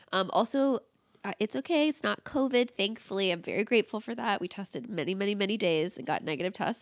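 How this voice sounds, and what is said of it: Congested, snotty-sounding sick voice. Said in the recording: “not doing so hot in the feeling of the body and the nasals and the throats ... more sultry ... like a snottier sounding ... my voice sounds a little different, it's because ... came down with a nice little European flu”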